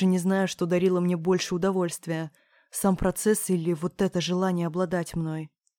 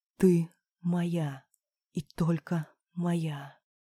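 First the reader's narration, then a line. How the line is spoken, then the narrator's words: Whispered in ear. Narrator (Russian): шептал мне на ухо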